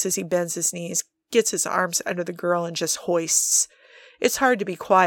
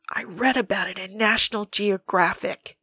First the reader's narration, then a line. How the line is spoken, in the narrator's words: he whispers back